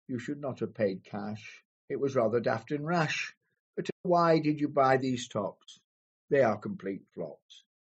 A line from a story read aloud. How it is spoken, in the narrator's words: she said with a sigh